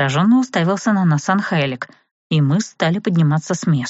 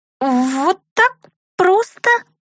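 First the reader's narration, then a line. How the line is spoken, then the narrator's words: Squeaky. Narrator (Russian): пропищала Миранда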